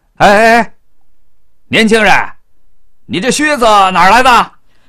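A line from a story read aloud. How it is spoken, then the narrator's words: Official calling out. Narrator (Chinese): 门口的衙役喊住了孝罗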